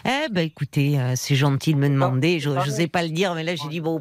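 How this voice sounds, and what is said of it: Southwestern French accent. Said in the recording (French): “on reconnaît que vous avez l'accent ... je suis du sud-ouest ... c'est du sud-ouest”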